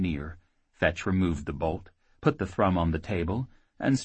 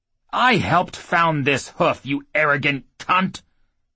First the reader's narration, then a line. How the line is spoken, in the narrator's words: Grocer snapped